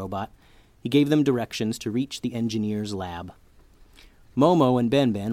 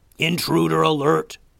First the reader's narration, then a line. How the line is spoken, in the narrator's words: screeched a hulking blue robot